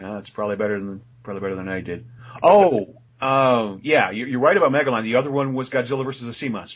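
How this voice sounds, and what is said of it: Usual voice. Nothing is said of it.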